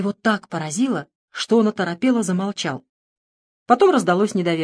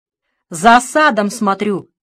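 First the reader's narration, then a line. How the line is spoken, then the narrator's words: Roaring hole. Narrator (Russian): проревела дыра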